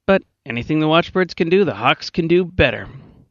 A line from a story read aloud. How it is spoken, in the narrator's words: McIntyre said cheerfully